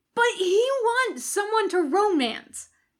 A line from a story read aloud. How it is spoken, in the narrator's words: Jim shouts